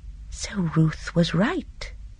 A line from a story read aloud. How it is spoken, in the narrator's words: Miss Marple said softly